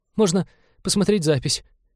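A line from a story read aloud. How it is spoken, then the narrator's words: Still trembling voice. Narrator (Russian): все еще дрожащим голосом предложил навигатор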